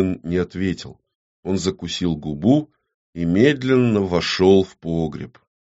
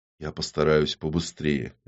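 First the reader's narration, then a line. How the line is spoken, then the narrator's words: Quiet. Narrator (Russian): негромко произнес ОМОН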